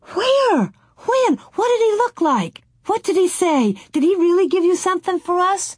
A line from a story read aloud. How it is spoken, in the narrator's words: Mary and Laura cried